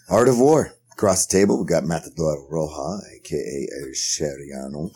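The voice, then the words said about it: Put-on sexy voice. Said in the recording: “Why are you using your sexy voice, though? ... Because I have a sexy voice.”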